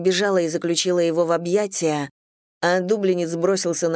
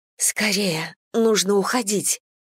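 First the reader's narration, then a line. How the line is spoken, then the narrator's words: Insistent whisper. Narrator (Russian): настойчиво прошептала я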